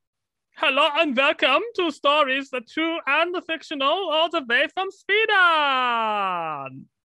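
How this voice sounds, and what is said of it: Bad put-on foreign accent. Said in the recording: “you just said that with an accent ... that bad impression”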